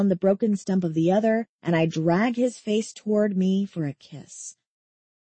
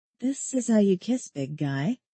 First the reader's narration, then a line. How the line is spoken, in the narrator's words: I murmur between pecks of my mouth against his